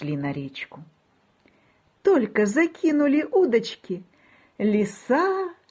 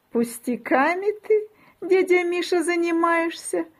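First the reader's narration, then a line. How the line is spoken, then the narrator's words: Giggling. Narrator (Russian): хихикает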